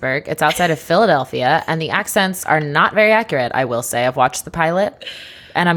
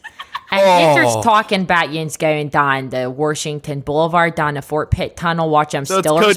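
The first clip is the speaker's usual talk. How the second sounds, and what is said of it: Put-on Pittsburgh accent. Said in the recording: “I could do a Pittsburghese accent.”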